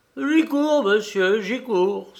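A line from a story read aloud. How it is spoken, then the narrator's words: Sudden eager exclamation. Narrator (French): s'écria-t-elle, ramenée subitement à la réalité par le gain matinal qui lui arrivait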